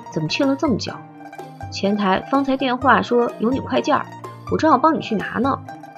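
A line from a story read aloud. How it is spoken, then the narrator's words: Low question. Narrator (Chinese): 低声问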